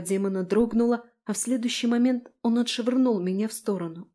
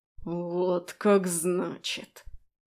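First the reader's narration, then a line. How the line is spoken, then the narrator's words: Angry hiss. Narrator (Russian): Он был зол и практически шипел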